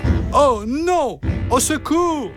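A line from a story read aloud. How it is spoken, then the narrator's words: Sudden cry. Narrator (French): s'écria-t-il soudain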